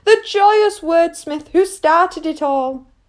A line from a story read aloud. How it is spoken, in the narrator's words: Lace cried